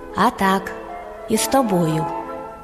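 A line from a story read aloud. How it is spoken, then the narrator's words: Calm. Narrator (Ukrainian): А їжак спокійно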